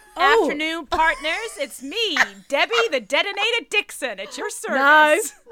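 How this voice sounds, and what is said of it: Put-on accent. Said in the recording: “she's doing an accent”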